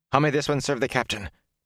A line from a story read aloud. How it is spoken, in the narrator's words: He asked in a tight voice